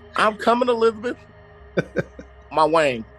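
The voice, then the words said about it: Put-on Southern accent. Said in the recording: “Sounding all southern. ... I gotta talk a little southern,”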